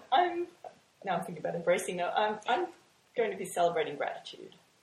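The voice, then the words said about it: Australian accent. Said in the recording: “the sexy Australian accent”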